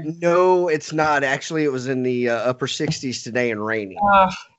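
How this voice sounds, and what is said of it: Strong Texan accent. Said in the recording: “Houston, Texas. ... If you couldn't tell from this crazy ass accent.”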